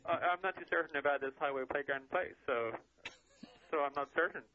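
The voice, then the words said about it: Irish accent. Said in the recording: “judging from your accent, that you're from Ireland”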